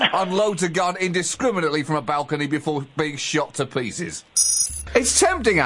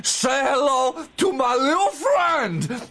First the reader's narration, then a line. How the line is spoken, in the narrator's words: Coked up, sweating, a bloated mess of the man he once was, screaming